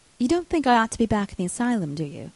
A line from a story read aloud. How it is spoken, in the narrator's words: she said